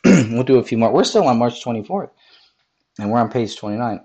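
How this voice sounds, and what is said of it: Strained voice giving out. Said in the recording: “my voice is going out.”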